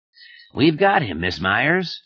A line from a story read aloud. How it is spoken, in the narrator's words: said cheerfully